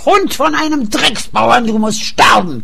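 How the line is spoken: Roaring. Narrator (German): brüllte

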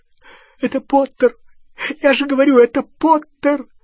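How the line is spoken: Sobbing. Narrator (Russian): всхлипывал Ксенофилиус

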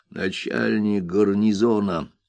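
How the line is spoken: Whispering. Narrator (Russian): шепнул приятель мистера Тапмена

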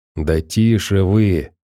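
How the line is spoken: Hissing. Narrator (Russian): зашипел на товарищей один из них

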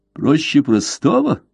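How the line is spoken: Laughing. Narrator (Russian): Блад рассмеялся

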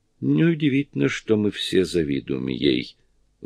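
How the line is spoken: Sigh. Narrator (Russian): вздохнула Кэрри

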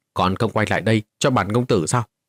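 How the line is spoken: Loud shout. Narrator (Vietnamese): Vô Ngân công tử quát lớn một tiếng

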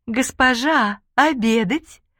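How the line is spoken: Sugary singsong servant. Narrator (Russian): сахарным голосом поет служанка

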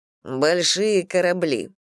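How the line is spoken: Mocking. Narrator (Russian): насмешливо Максим

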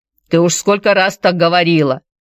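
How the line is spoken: Grumbled. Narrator (Russian): проворчал Петер

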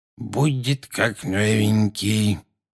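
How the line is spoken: Muttering. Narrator (Russian): пробормотал

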